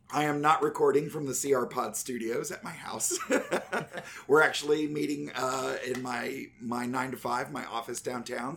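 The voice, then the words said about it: Slightly raspy strained voice. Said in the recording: “my voice sounding a little raspy, I went to a wrestling event over the weekend and screamed my brains out”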